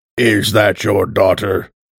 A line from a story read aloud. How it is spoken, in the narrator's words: grunting